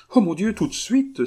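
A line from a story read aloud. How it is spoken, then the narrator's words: Columbine exclaiming. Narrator (French): s'écria la colombine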